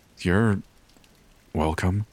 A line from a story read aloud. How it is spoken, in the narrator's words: I say slowly